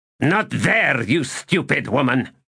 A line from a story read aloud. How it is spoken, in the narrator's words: he snapped